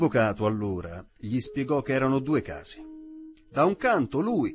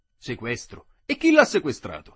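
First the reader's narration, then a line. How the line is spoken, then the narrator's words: Exclaimed. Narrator (Italian): esclamò lo Zirafa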